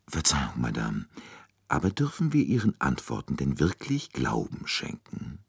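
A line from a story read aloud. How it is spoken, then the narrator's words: Very quiet question. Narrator (German): fragte Poirot sehr leise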